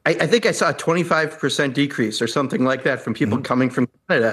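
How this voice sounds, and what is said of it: Upper Midwest accent, sounds Canadian. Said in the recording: “I often get mistaken by accent for being from Canada.”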